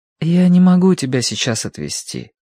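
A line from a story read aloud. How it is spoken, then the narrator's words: Gentle. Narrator (Russian): ответил Киврин ласково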